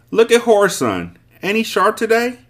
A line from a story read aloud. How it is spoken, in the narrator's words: Some of them yelled across the street at me